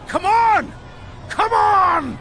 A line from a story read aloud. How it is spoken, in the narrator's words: Sir Robert was shouting